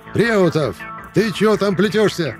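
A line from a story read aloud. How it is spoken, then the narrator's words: Displeased shout. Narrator (Russian): крикнул Панасыч недовольным голосом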